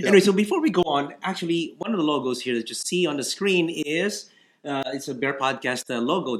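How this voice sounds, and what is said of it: Stuffy, congested voice. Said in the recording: “I really feel stuffy and everything... I sound weird, it's kind of, I'm kind of stuffy”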